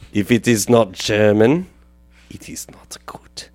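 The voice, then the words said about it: Poor put-on German accent. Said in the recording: “my German accent's very bad tonight. It's probably never good, but especially bad tonight.”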